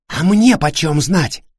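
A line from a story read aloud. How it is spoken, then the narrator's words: Hissed reply. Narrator (Russian): прошипел в ответ Давид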